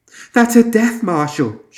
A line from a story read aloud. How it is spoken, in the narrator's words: she squeaked